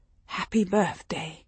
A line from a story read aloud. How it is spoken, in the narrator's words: Father whispered the words